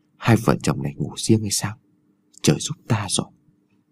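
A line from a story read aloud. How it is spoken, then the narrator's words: Old man's whisper. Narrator (Vietnamese): lão thì thào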